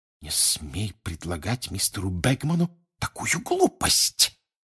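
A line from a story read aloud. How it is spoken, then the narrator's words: Furious hiss. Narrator (Russian): яростно прошипел Перси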